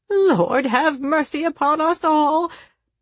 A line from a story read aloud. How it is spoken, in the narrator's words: wailed the incapacitated chaperone